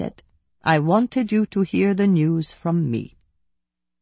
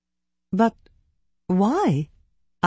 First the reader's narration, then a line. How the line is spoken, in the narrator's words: I stammered